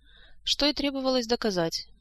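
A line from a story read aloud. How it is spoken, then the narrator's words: Gloomy sigh. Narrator (Russian): мрачно вздохнул король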